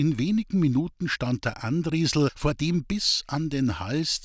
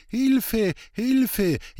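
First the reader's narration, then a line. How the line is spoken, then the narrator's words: Wailing close by. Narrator (German): jammerte es aus nächster Nähe zurück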